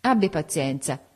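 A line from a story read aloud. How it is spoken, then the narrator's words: Laughing. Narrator (Italian): disse ridendo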